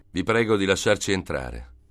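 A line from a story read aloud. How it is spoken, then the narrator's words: Shouted. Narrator (Italian): gridò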